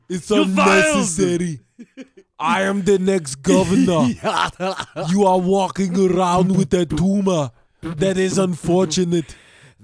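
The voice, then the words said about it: Imitates another person's accented voice. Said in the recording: “That accent will always forever be tied to the word tumor.”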